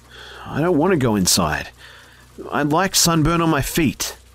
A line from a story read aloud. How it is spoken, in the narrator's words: shakily tell her